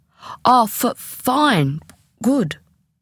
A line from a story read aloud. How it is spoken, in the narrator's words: Jill managed to stammer